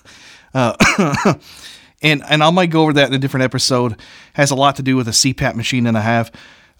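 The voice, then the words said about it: Voice not fully recovered, allergy-affected. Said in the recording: “my voice isn't quite all the way back yet ... battling severe allergies ... a little asthmatic symptoms”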